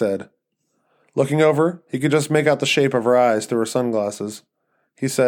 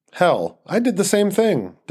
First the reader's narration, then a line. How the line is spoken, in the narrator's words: Denny said